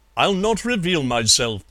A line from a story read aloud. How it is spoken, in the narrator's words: said